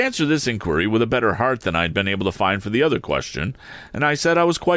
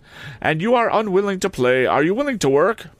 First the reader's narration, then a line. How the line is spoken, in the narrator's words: said Miss Havisham impatiently